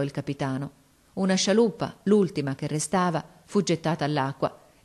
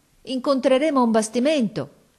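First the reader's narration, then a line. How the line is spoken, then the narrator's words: Sailors shouting. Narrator (Italian): gridarono i marinai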